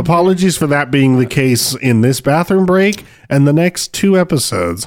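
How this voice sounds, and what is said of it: Sick, worn-out voice. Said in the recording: “I'm a little sicky poo. I'm on the tail end of being sicky poo, and my voice is a little shot.”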